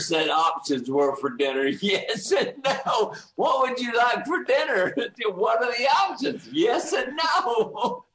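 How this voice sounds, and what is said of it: Southern American accent. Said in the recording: “may have picked up on your accent ... I grew up in the rural South”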